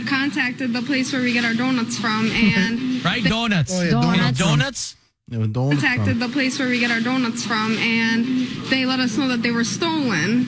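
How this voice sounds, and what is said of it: Slight Connecticut accent with lilt. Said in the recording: “there's a little lilt. I'm not super familiar with that Connecticut accent, but you can kind of hear it a little bit.”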